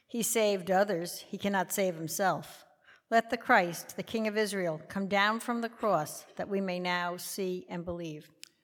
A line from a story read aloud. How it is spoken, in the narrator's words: the chief priests with the scribes mocked him among themselves and said